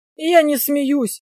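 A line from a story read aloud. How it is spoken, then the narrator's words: Hoarse rasp. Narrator (Russian): прохрипел я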